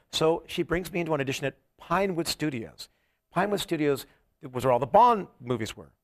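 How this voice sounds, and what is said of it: English accent. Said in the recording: “I talked with an English accent. I mean, I am English.”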